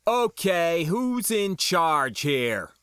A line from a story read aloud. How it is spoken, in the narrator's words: shouted